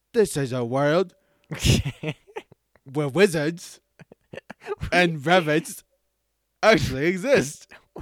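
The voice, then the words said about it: Put-on British accent. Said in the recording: “you forgot to do a British accent”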